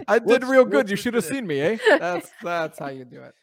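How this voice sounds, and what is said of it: Rocky impression with Canadian twist. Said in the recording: “I can't do the accent, but I got the lines. ... You got the Canadian Rocky.”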